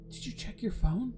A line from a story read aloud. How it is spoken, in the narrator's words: whispered